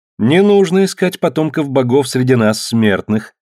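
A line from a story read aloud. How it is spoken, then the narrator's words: Laughing woman. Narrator (Russian): засмеялась спартанка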